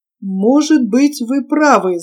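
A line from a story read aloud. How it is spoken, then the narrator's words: Thoughtful. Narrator (Russian): задумчиво проговорил Гильберт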